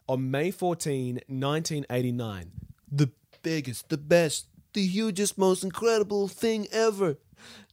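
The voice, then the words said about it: Donald Trump impression. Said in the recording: “your Trump impression is great. Like, I can't fault it. ... Spot on.”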